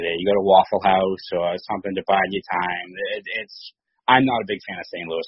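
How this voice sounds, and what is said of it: Boston accent. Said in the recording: “I love your Boston accent.”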